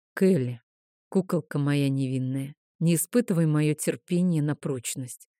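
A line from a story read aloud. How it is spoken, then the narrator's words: Dragon's sigh. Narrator (Russian): вздохнул дракон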